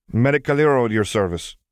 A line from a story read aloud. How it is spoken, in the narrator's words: she greeted curtly